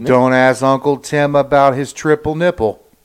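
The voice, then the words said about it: Monotone, excessively loud put-on accent. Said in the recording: “It's monotoned... It's excessively loud... I was trying to incorporate a certain type of cadence”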